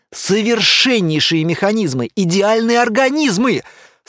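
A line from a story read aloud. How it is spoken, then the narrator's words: Delighted shout. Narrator (Russian): с восторгом кричал он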